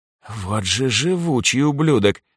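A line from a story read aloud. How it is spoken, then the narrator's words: Spoken through clenched teeth. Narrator (Russian): процедила Анжелика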